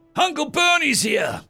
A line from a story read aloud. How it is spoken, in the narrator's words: yelled with an unimaginable excitement